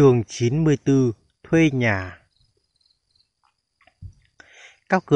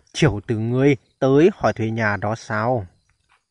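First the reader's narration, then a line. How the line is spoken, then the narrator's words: Old man, kindly smiling. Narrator (Vietnamese): Lão mỉm cười hiền lành mà nói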